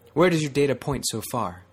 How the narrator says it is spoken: Her tone was too sharp

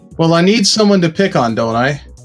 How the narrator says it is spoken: Trump chuckled

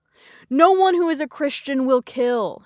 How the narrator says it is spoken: she yelled

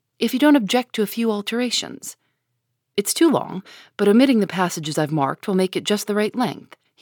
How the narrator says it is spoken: he said, in a businesslike tone

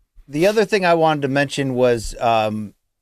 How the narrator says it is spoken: Artur Beterbiev shouted out

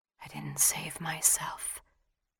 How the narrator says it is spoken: she whispered

